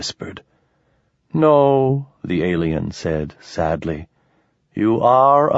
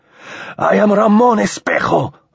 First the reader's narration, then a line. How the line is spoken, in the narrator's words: Ramon shouted